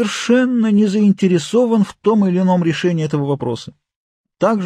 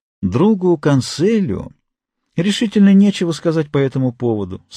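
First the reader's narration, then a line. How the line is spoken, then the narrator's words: Calm male reply. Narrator (Russian): спокойно ответил фламандец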